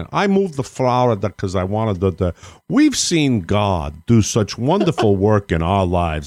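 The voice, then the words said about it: Put-on New York accent. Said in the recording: “this big, giant guy that comes in with a New York accent.”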